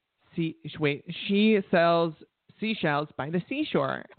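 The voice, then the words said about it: Put-on stereotyped gay accent. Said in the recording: “What about your gay accent?”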